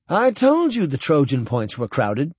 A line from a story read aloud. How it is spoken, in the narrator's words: Buckman said happily